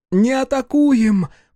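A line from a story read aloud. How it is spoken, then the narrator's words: Shouted into ear. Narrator (Russian): прокричала она в ухо Афлуру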